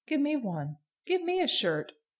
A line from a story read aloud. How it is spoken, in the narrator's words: they all began to shout